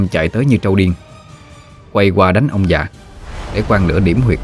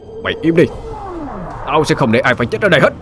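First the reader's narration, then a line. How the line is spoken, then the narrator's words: Shouting. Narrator (Vietnamese): hét lên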